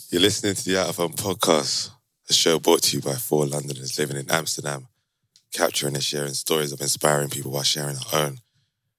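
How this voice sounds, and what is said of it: Hoarse, coarse voice. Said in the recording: “my voice is a bit coarse because I was shouting all yesterday”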